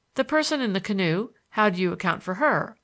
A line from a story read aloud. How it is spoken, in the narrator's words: I asked